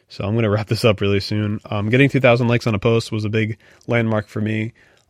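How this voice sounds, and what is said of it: Hoarse, tired, fading voice. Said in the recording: “I'm losing my voice now. I'm getting really tired.”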